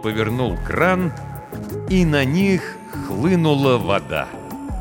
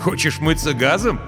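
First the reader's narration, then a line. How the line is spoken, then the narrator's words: Laughing. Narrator (Russian): засмеялся майор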